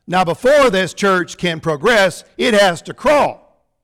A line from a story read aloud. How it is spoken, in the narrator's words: Brother Leroy shouted a little bit louder